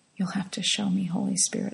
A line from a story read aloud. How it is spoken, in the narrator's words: whispered